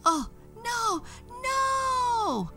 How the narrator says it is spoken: she screamed

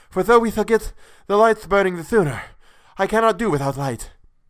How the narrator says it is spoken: panted

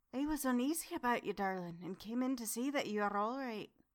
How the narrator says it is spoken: said to me even more sweetly and softly than her wont

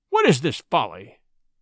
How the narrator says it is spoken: said Buldeo angrily

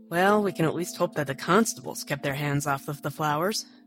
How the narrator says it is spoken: he muttered

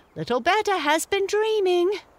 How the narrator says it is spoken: they only laughed and said

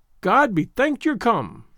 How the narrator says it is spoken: cried

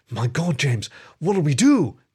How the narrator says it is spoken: the otter cried

